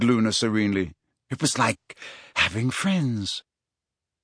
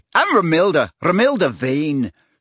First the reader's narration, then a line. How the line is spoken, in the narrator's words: she said loudly and confidently